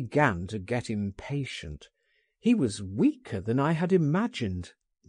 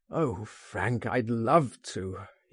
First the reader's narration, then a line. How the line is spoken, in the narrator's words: he groaned